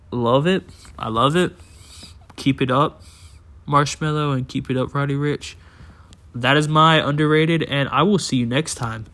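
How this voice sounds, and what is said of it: Tired-sounding, quick speech. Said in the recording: “I sound so tired, and maybe that's why it's so quick”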